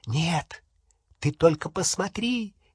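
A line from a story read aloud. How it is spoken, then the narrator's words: Cheerful whisper. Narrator (Russian): весело зашептала Полумна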